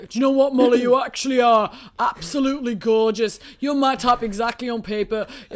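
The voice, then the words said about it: Impression of Tommy's accent. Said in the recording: “go to that accent. ... That is literally him.”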